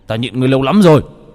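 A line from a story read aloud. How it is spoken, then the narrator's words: Roaring. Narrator (Vietnamese): Đô Lương gầm lên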